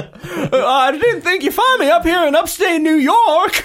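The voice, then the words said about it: Put-on Southern accent. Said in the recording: “we're doing Southern accents for George Clooney.”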